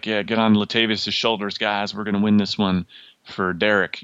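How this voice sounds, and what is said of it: Impression of football coach, Southern accent. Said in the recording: “my impersonation of their coach. I assume he's from the South or generally Midwest somewhere.”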